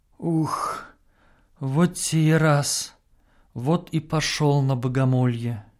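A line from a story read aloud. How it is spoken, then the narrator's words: Boy's pained muttering. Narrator (Russian): Морщась, мальчик бормочет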